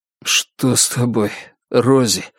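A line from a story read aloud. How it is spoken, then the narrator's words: Hoarse, strained. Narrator (Russian): хрипло выдавил он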